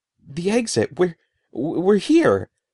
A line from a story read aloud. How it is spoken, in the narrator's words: stammered